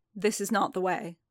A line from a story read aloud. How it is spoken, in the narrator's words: repeated, firmly